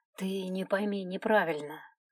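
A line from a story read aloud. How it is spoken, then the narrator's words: Gentle continuation. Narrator (Russian): мягко продолжил он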